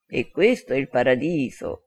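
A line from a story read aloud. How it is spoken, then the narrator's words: Whispered with knowing smile. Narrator (Italian): sussurrò con un sorriso ammiccante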